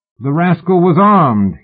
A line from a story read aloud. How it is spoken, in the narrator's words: he shouted